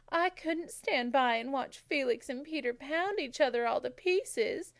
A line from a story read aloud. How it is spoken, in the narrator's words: she sobbed